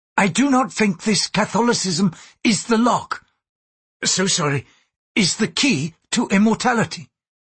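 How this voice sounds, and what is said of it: Thick accent. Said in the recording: “his accent thick”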